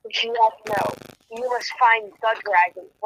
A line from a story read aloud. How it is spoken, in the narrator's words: Vol said